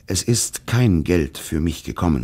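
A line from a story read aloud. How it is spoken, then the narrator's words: Plain. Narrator (German): sagte er schließlich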